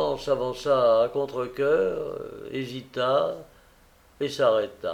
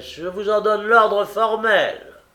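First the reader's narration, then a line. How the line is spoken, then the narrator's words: Shouting. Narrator (French): cria Holmes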